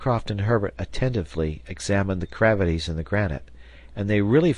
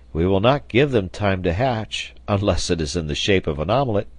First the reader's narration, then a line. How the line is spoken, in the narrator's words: replied Pencroft merrily